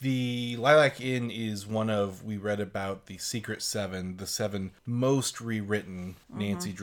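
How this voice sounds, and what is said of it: Usual voice. Nothing is said of it.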